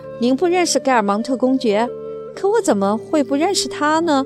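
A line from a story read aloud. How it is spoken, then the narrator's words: Faint smile. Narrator (Chinese): 德夏吕斯先生回答道，一丝微笑牵动着嘴唇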